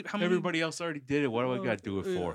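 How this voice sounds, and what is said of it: Put-on New Jersey Mississippi accent. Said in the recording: “That was my New Jersey, Mississippi accent.”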